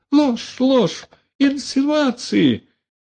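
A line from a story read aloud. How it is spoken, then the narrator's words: Shrieking. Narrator (Russian): завизжал Каргополов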